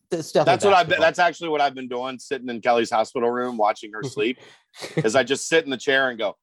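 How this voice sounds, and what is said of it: Usual voice. Nothing is said of it.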